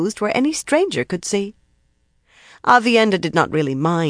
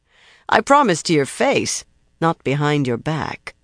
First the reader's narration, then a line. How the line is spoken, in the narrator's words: she said dryly